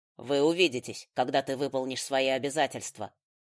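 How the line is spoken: Repeated reminder, father. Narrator (Russian): в очередной раз напомнил отец

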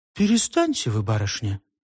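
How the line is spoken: Completely calm reply. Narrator (Russian): совершенно спокойно ответила Галя

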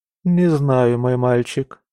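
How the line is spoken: Sighing. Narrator (Russian): вздохнула Шарлотта

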